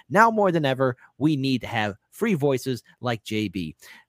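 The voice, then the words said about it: Polished radio announcer voice. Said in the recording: “That's my radio voice back in the day. I still got it.”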